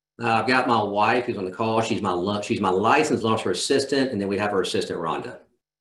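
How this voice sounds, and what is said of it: Southern US accent from Georgia. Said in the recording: “I'm in Georgia ... I couldn't tell from the accent at all, right? ... I try to draw it out as best I can.”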